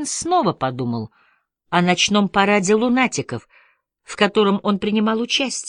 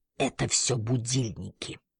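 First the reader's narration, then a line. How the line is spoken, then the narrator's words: Quiet reply. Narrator (Russian): тихонько ответил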